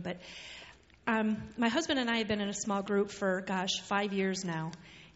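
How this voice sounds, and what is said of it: Strained, struggling voice. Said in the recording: “Pardon my voice. I'm struggling.”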